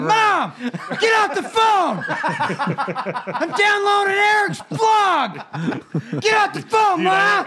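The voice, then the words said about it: Yelling. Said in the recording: “I'm yelling... I'm yelling”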